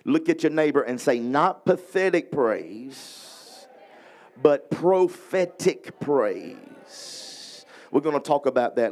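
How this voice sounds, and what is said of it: Louisiana accent. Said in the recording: “I got Louisiana accent.”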